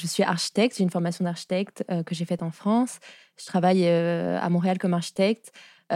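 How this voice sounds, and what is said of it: French-from-France accent. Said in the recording (French): “ça s'entend à mon accent, je suis française”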